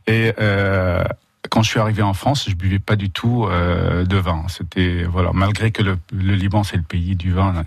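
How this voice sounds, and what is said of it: Lebanese accent speaking French. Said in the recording (French): “vous avez pu remarquer par l'accent, je suis d'origine libanaise”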